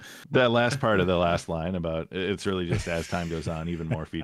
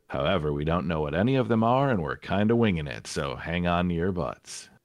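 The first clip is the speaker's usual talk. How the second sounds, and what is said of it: Promotional announcer voice. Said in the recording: “you were in total announcer voice ... that was a good James Workshop invitation. You were almost like right on it.”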